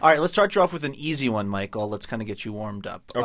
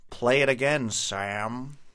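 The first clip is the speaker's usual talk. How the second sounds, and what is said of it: Poor imitation of a film character's voice. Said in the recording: “Oh, that's bad. That's a bad impression. That's from Casablanca.”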